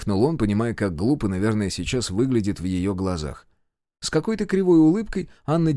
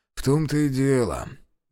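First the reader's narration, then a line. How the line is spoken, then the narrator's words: Grumbling. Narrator (Russian): буркнул он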